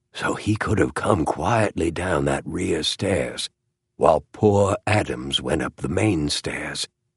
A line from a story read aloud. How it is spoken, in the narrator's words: he rasped